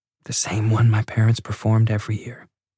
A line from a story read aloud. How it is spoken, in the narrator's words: Noelle said softly